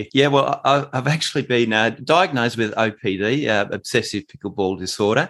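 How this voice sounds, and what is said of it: Australian accent. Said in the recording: “you've got a bit of an accent ... your playing in Australia ... I certainly do have the Morgan Evans accent going here”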